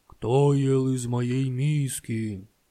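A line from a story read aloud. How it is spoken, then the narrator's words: Growling papa bear. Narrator (Russian): Зарычал папа-медведь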